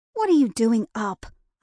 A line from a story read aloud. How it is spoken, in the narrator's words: snapped